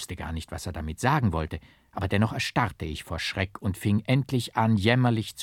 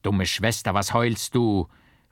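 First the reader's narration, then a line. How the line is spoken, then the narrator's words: Calling out. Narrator (German): rief Hermogen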